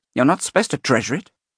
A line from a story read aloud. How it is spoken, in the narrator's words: the spiky fan snaps